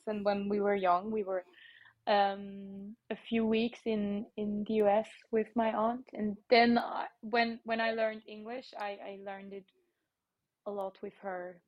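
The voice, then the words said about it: Slightly American English accent. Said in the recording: “my slightly American accent in my English”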